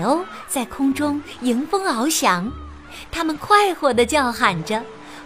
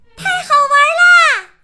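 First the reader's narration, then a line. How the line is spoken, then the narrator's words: Loud excited shout. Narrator (Chinese): 米莉和茉莉大声喊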